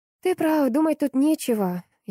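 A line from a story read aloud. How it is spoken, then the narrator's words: Deep sigh. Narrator (Russian): я глубоко вздохнула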